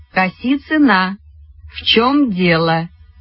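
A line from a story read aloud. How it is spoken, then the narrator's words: Slow, deliberate. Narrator (Russian): Медленно и раздельно сказала Вера Евстигнеевна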